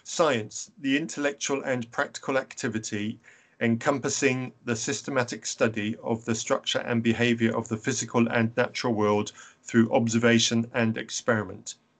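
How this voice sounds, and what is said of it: English accent. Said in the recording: “all word usages sound better when they come from an English accent”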